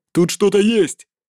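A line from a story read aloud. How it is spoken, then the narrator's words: Crew member shouting. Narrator (Russian): крикнул кто-то из команды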